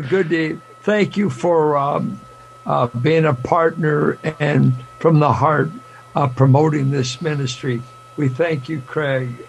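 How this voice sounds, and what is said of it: Slightly raspy voice. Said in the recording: “My voice is, a little raspy”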